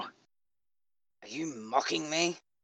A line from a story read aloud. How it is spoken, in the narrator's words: Katja finally growled warningly